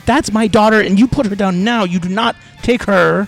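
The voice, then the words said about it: Yelling angrily. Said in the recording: “I'm just going to yell at him ... as I'm yelling”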